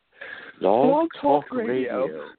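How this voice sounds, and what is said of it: Put-on British woman's voice. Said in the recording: “do the British lady voice.”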